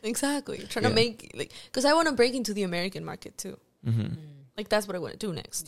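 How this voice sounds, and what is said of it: Non-American accent. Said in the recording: “Is it because of the accent? ... They told me once about my accent”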